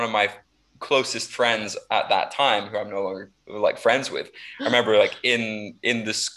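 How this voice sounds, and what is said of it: Usual voice. Nothing is said of it.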